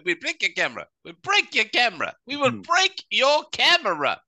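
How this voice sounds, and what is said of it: Imitated foreign accent. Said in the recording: “Or whatever accent they have”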